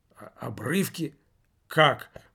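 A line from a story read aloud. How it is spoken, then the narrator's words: Muttering. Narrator (Russian): пробормотал мужчина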